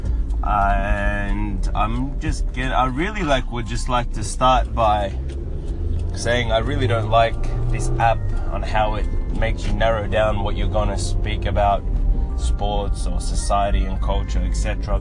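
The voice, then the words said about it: Australian accent. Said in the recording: “I'm from Melbourne, Australia, as you can tell from the accent.”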